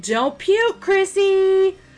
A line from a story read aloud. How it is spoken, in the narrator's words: Ron shouted